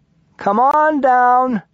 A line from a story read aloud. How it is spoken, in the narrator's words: he hollered